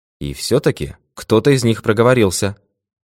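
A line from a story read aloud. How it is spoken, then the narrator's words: Dry remark. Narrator (Russian): сухо заметил сыщик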